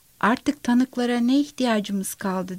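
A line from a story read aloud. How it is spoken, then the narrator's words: Plain. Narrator (Turkish): dedi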